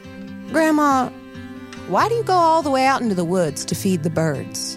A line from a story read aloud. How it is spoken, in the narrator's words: She sighed